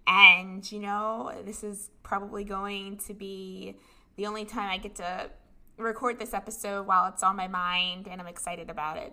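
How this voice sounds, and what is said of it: Sick, strained voice. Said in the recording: “excuse my voice, I am sick. This has gone from an acute upper respiratory infection to bronchitis.”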